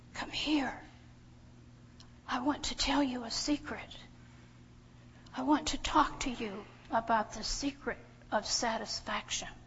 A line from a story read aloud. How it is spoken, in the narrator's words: He leans over and whispers